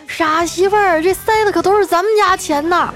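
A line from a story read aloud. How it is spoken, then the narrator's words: Bridegroom shouting. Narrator (Chinese): 新郎 喊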